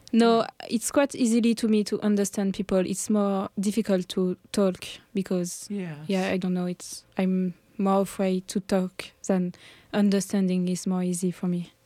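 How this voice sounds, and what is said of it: French-accented English. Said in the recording (French): “everybody finds a French accent charming”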